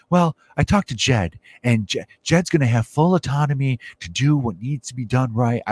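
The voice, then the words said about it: Poor imitation of another person's voice. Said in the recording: “I know this voice does not sound like Tom Ricketts at all. I can't remember how he sounds. He's more quiet. ... my Tom Ricketts impression ... that horrific impression”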